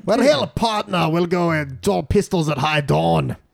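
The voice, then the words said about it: Scottish accent as a cowboy. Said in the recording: “Scottish accent trying to be a cowboy ... Ooh, not bad. ... Really weirdly hard. ... to speak in Scottish but think in cowboy.”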